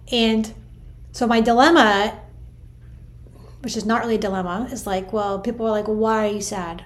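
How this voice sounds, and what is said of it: Strained, emotional voice. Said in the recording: “You can tell by my voice, I'm struggling a little bit.”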